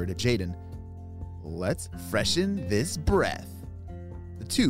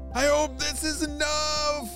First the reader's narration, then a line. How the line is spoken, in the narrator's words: Jaden shouted to Ava